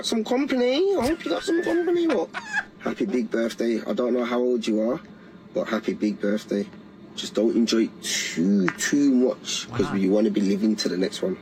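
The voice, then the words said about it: British or Scottish accent. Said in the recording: “I like that accent... Is he Scottish?... It sounds like British... Liverpool, maybe?... Sounded Scottish.”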